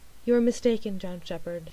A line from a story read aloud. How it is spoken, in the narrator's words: she said quietly